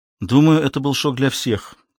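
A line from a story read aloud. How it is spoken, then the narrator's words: Plain. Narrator (Russian): ответила Мэрайя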